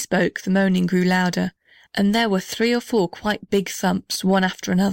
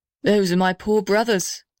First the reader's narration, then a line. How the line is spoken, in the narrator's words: answered the big blue gum very sadly